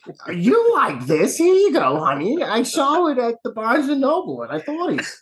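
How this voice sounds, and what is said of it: Older Jewish grandmother voice. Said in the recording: “Why do you sound like a Jewish grandma?”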